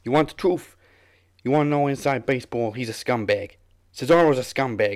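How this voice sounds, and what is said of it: Imitates another person's accent. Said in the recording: “read out that statement on Cesaro in his accent”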